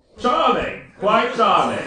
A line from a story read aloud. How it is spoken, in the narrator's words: exclaimed at last